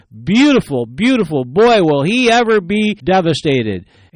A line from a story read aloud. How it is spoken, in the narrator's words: With revenge in her eyes, she smiled and she exclaimed